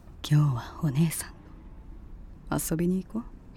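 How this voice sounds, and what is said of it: Whispering close to the ear. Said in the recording (Japanese): “そんな耳元でささやかないでください。...そんなかっこいい声で”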